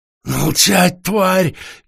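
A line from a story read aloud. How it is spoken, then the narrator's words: Sudden furious hiss. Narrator (Russian): яростно зашипел вдруг Левефревель с таким бешенством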